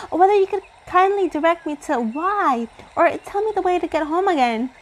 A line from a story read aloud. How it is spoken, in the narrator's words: cried Girlie hurriedly